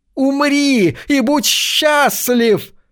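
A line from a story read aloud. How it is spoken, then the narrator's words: Shrill shriek. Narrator (Russian): взвизгнул Кастрат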